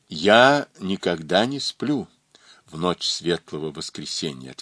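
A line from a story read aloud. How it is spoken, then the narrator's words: Plain. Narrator (Russian): ответил он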